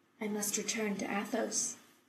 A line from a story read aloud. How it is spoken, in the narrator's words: Taylor said quietly